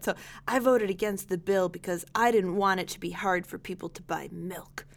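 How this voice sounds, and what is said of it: Imitates another person's voice. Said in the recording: “I wish I could do a Martin Sheen voice. ... Do like a Charlie Sheen, but with less like drug history in it”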